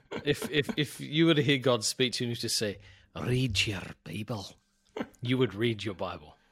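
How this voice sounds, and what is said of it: Scottish accent. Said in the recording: “preaches with an accent that is commensurate with God's voice himself ... I think the Scottish accent is the voice of God”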